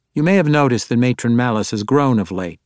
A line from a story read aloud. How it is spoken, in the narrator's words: she said dryly